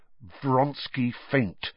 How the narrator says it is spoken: said Harry through gritted teeth

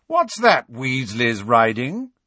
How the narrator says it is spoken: Malfoy called in his sneering drawl

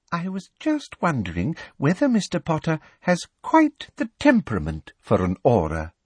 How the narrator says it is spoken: said sweetly

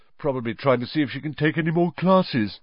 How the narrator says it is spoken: yawned Ron

